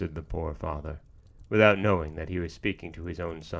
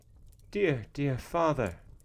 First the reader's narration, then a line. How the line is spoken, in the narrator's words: exclaimed Ivan